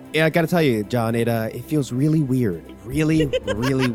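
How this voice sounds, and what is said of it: Imitates another person's voice. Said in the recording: “Why are you doing the Miles voice?”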